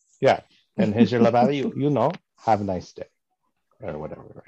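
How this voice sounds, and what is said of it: English with put-on French accent. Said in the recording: “I don't know what accent I'm doing exactly ... in English with a French accent”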